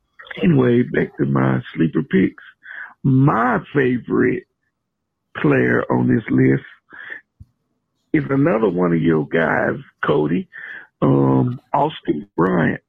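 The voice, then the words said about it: Slightly hoarse, funny-sounding voice. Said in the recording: “Excuse my voice. A little funny. Sound like I got a little, trying to get a little hoarse”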